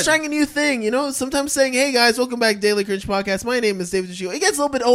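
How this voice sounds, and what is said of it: Usual voice. Nothing is said of it.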